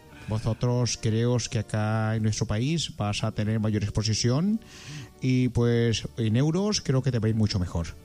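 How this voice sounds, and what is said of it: Put-on foreign Spanish accent. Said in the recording (Spanish): “¿Qué te parece ese acento allá? ... Usted tiene todos los acentos. Todos los acentos, usted hace todas las voces”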